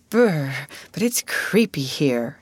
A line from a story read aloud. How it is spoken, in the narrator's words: sighed Ruth